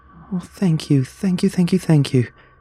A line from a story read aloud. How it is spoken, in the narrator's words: she cried